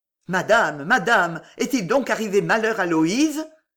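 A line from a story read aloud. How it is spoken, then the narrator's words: Trembling exclamation. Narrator (French): s'écria le chevalier dont les lèvres tremblantes devinrent blanches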